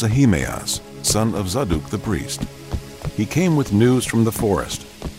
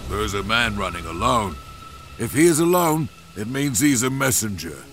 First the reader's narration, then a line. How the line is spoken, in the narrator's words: The watchman on the tower above David called out, saying